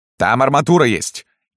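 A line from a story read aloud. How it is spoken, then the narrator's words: Shouting dwarf. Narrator (Russian): закричал широкоплечий карлик-партизан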